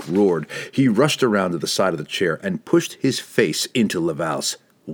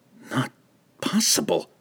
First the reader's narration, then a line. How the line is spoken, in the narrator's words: he gasped